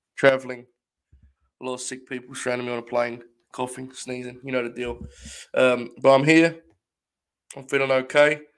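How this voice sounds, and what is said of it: Slightly hoarse voice. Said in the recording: “my voice is not too bad. A little hoarse,”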